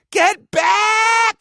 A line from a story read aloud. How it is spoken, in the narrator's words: she screamed